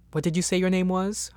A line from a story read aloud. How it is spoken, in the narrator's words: Huntrod said